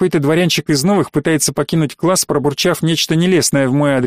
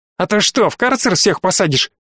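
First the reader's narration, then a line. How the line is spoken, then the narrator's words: Shouting nobleman. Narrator (Russian): выкрикнул дворянчик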